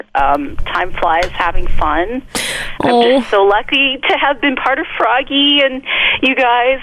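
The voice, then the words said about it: Emotional, choked-up voice. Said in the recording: “I'm a little sad and a little choked up here”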